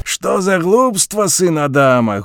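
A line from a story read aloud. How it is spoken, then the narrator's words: Loud laughter. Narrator (Belarusian): гучна засмяяўся спадар бабёр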